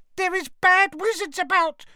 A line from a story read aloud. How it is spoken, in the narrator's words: she squeaked distractedly as she leant forwards and laboured to keep running